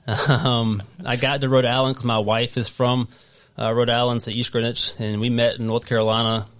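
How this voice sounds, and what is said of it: Strong Southern US accent. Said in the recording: “I'm originally from North Carolina, if you can't tell my wicked Southern accent.”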